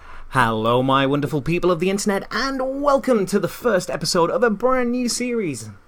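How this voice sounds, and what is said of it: Put-on podcast presenter voice. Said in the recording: “is that your podcast voice”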